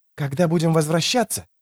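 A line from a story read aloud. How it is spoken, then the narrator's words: Whisper. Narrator (Russian): шептал он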